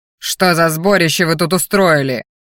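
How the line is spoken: Master growling. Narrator (Russian): рыкнул магистр

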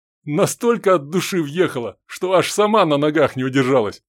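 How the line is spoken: Young man's report, then laughing. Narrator (Russian): сообщил парень и засмеялся

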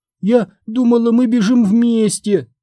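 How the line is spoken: Moaning. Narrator (Russian): простонала она

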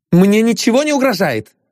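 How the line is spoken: Overly sharp, unconvincing. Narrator (Russian): сказала Агния излишне резко, чтобы в это можно было поверить

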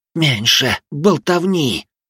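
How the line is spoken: Hissed. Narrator (Russian): прошипела Югай, напрягая мышцы

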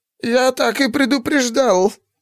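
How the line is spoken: High creaky shout. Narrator (Russian): Высоким скрипящим голосом крикнул Рин Варалат, устав мастер ночи

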